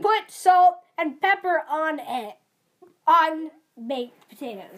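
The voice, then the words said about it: Weird put-on salesman pitch accent. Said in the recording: “What is this accent you're doing? It's weird. ... Is this like your sales pitch accent?”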